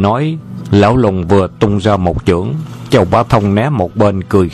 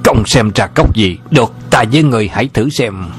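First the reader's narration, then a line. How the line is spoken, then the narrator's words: Old man, furious shout. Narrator (Vietnamese): Lão lùng cả giận quát to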